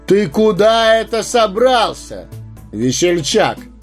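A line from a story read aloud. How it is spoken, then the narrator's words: Thunderous shout, wanderer. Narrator (Russian): громовым голосом вскричал странник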